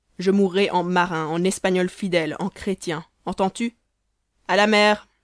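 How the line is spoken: Young man shouting. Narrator (French): cria le jeune homme

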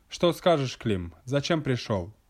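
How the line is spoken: Sharp question. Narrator (Russian): Должник Петр Михайлович резко спрашивает Климентия

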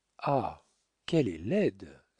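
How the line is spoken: Exclaimed. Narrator (French): s'écria Petit Claud

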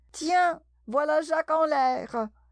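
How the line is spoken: Rabbit shouting. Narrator (French): la voix du lapin qui criait

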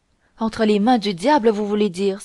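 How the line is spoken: Raised voice, not calling out. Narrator (French): s'écria Buckingham, en élevant la voix pour attirer du monde, sans cependant appeler directement

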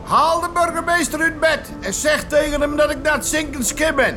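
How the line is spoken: Calling out. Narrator (Dutch): riep vissersbaas Jacob Tijseling naar de fietser

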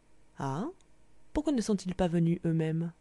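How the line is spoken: Soft speech. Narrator (French): je dis doucement

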